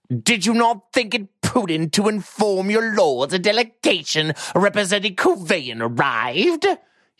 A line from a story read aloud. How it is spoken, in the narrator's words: asked, almost whining